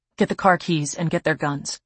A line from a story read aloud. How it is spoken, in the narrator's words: he says calmly